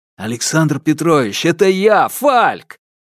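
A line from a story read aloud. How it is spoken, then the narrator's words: Joyful exclamation. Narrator (Russian): радостно воскликнул доктор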